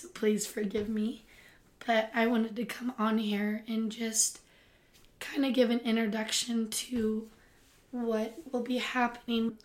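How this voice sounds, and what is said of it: Strained, hoarse voice. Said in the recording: “I am currently losing my voice,”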